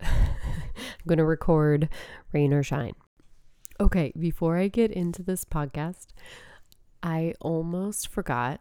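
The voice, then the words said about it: Stuffy, congested voice. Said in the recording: “I sound a little stuffed up ... a cold, I guess had just turned into allergies. So I sound a little stuffy”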